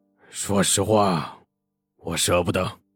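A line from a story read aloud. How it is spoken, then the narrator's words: Through gritted teeth. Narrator (Chinese): 黄金荣咬牙道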